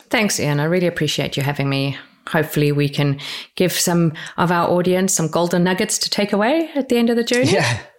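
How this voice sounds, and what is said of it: South African English accent. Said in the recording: “where your accent is from. So you are South African once upon a time”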